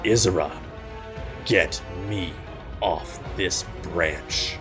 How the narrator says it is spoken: he snarls

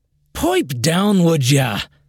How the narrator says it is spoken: Egg shouted across the room

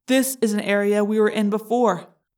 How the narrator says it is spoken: I said

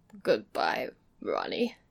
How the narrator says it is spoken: he said, in a queer choking voice

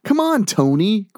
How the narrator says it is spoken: Greg whined

